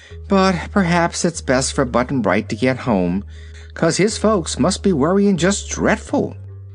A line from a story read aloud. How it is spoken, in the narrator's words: said Dorothy with a sigh